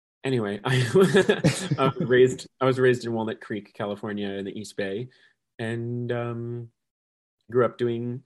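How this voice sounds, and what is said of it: Deeper voice than usual. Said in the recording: “my voice is a little deeper today because I just sang through my whole solo show earlier after being at a friend's birthday party late last night”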